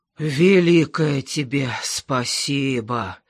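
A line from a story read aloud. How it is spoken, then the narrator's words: Breathed out. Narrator (Russian): выдохнул Гердер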